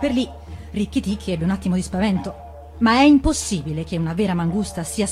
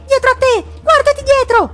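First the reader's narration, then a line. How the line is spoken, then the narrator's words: Shouted. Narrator (Italian): gridò Darzì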